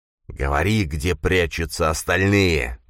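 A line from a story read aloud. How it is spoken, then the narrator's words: Hissed. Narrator (Russian): прошипел Грис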